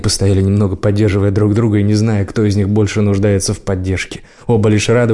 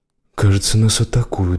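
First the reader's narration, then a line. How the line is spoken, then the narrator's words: Muffled whisper into collar. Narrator (Russian): шепнула Лайла в воротник его куртки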